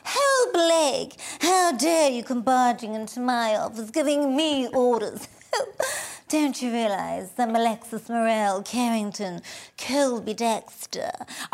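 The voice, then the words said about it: Joan Collins impression. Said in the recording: “I was obsessed with Joan Collins.”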